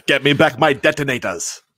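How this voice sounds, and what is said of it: Put-on Austrian/German accent. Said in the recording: “do an Austrian accent ... I just watched Die Hard last night ... I know it's that's German, but I mean it's close”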